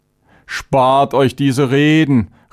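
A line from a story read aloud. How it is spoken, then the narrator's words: Angry outburst. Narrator (German): rief Charvenes aufbrausend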